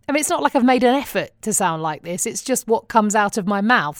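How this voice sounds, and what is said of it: Australian accent. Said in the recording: “random Australian towns when people ask where in Australia I'm from ... the I love your accent thing”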